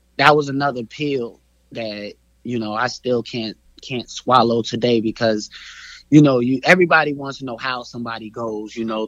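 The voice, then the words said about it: Voice a little off, emotional. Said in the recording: “my voice is a little off”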